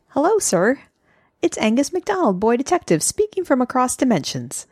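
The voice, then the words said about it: Impression of a boy detective character. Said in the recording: “Do my ... Angus impression.”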